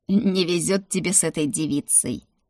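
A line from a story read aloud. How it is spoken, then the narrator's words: Laughing. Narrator (Russian): хохотнул он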